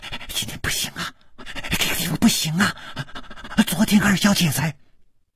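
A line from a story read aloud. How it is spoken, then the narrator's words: Abruptly cut off. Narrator (Chinese): 他的嘴还没有说完，就好像被什么东西给堵住了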